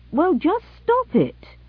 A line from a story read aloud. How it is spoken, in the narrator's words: ordered the doctor sharply